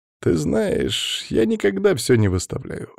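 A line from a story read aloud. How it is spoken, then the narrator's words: Cheerful. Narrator (Russian): весело ответил бармен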